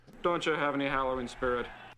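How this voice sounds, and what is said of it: Unconvincing attempted Irish accent. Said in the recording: “It sounds like another person who's heard of an Irish accent trying one ... it sounds Irish”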